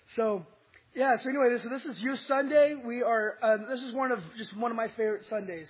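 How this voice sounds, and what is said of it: Weak, strained voice. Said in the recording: “my voice has been going in and out ... I had no voice ... I have a little bit of a voice”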